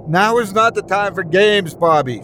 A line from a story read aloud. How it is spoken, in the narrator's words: she screamed